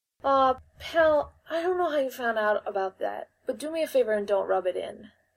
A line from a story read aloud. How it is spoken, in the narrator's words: Gumshoe said sadly